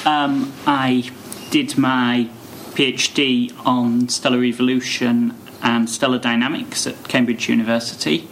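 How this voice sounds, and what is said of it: English accent. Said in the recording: “I come from England, as you can probably tell from my accent.”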